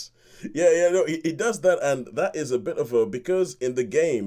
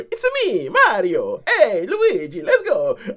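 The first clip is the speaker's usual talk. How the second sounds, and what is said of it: Mario's stereotypical Italian accent. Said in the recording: “voice Mario ... an Italian stereotype accent ... are they going to change the voice?”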